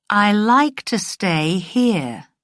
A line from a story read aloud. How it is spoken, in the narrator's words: Diana said slowly